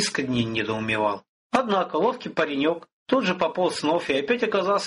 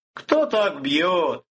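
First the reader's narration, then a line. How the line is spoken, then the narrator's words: Exclamation. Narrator (Russian): воскликнул Виктор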